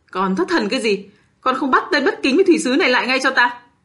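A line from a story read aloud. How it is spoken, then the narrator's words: Trembling, choked loud shout. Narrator (Vietnamese): Thân hình của thủy sứ run lên, giọng nói cơ hồ trầm tắc, lớn tiếng quát lên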